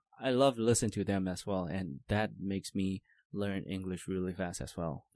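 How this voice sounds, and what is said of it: Clean, natural-sounding English accent. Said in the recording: “your accent is very clean too. Really nice.”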